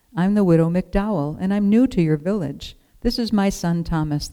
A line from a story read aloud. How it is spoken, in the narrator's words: the woman said